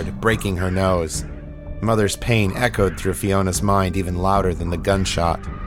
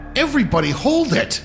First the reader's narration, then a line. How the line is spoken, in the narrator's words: Egan shouted, the panic edging into his voice